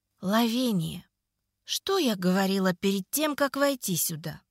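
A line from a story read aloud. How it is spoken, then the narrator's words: Sweet, hiding fury. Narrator (Russian): Ласково поинтересовалась я, готовая придушить девицу собственными руками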